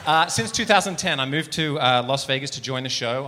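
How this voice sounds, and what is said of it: Australian accent, partly transatlantic. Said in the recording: “there's that Australian accent ... it used to be Australian, but I've been in America now since uh, 2010, so it's kind of like a weird transatlantic half”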